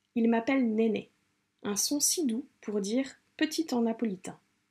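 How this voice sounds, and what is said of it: Imperfect put-on Italian accent. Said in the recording (French): “je m'excuse pour mon accent italien qui n'est pas du tout un accent italien puisque je ne parle pas italien”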